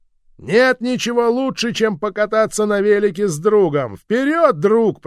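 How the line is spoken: Shouting. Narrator (Russian): прокричал я

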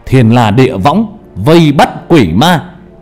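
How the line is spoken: Loud shout. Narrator (Vietnamese): Hà hét lớn

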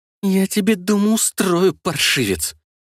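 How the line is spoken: Angry hiss, flushed mother. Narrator (Russian): зашипела покрасневшая матушка

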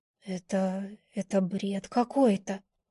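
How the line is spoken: Whispered. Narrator (Russian): прошептала я

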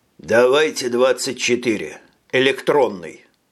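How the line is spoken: Grumbled mutter. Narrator (Russian): буркнул Фред

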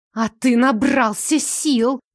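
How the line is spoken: Hissed. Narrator (Russian): прошипела Ильза

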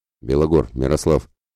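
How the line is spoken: Soft whistle. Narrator (Russian): тихонько свистнул Яромир

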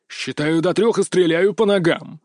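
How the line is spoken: Harsh bark. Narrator (Russian): рявкнул он

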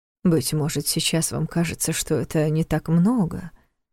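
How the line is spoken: Quiet objection. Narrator (Russian): тихо возразил Неф

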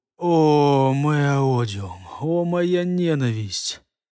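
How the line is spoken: Convulsed exhale. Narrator (Russian): меня от пяток и до макушки перевернуло судорога, выдохнул

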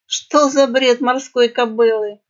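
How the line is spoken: Hoarse snort. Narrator (Russian): хрипло фыркнула крыса

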